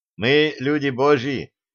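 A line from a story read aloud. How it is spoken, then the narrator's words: Teacher shouting. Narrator (Russian): выкрикнул преподаватель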